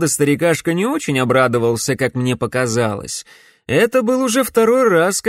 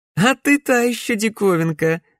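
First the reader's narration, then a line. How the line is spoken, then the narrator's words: Laughing. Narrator (Russian): рассмеялась Глория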